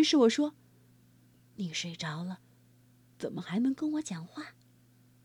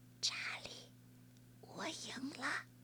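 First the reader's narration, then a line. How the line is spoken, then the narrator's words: Low voice. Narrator (Chinese): 劳拉低声说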